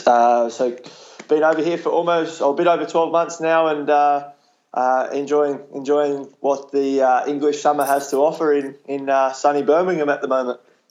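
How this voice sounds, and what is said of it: Thick Australian accent. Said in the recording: “you do have a very thick Australian accent”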